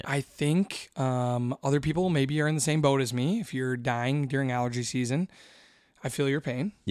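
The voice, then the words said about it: Strained, worn-out voice. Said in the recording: “My voice is still hanging on by a thread.”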